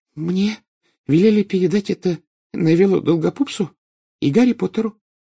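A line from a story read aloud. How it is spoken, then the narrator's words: Embarrassed stammering murmur. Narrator (Russian): пролепетала она, запинаясь, и густо покраснела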